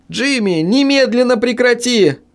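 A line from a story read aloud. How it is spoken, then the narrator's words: Shrill squeal. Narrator (Russian): взвизгнула я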